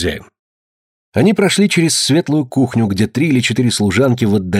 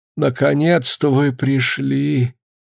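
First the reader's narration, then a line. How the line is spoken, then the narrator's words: Weak voice. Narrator (Russian): слабым голосом сказала хозяйка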